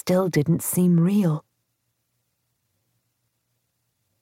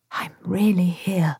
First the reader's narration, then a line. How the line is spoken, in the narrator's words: whispered to myself